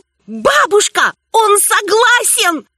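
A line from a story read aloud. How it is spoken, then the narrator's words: Sudden shout. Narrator (Russian): И я как закричу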